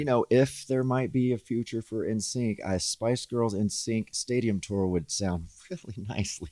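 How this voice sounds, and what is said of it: Southern American accent. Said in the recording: “your accent ... my southern accent's coming out ... It comes out”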